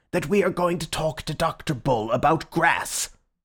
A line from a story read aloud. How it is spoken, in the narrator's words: asked the Professor furiously